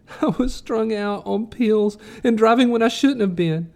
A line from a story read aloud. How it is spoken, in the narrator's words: Agnes moaned